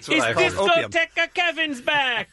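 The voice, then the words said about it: Poor Spanish accent, sounds Italian. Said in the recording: “my Spanish accent ... That was worse than Bean's British ... It's sort of Italian ... a little bit of Italian”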